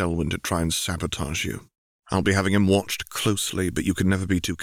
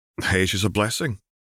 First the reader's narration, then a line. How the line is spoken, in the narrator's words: Robert chuckled